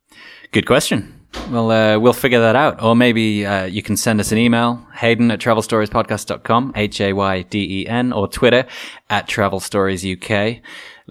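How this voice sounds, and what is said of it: Soothing northern English accent. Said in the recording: “a soothing northern accent”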